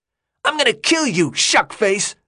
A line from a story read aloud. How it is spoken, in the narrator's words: Gally yelled